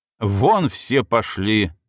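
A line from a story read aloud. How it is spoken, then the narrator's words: Growling. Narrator (Russian): рыкнула Елена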